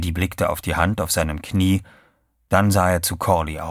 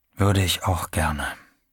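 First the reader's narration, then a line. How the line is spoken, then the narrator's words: Quiet. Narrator (German): sagte er leise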